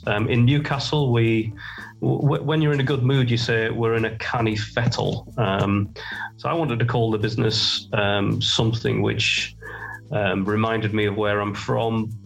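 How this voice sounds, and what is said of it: Geordie accent. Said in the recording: “You're probably picking up on the Geordie accent”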